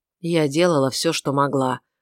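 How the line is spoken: Gloomy. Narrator (Russian): сказала она мрачно

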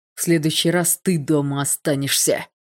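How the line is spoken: Gruff bark. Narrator (Russian): рявкнул физрук

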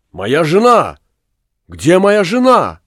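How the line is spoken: Anxious exclamation. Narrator (Russian): с беспокойством воскликнул

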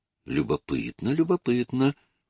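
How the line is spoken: Muttered. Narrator (Russian): пробормотал сэр Хюберт

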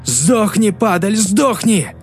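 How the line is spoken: Shouting. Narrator (Russian): он кричал

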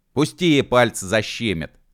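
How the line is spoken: Shouted. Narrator (Russian): закричал он

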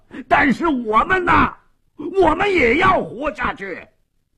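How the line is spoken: Hoarse desperate shouting. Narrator (Chinese): 斯帕索耶冲着门外声嘶力竭地喊着

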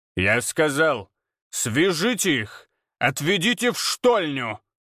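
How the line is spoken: Commanding voice. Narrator (Russian): Командным голосом произнес Абурицей

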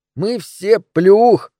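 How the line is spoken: Muffled laughter. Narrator (Russian): хохотал Джеймс, уткнувшись носом в подол моего платья

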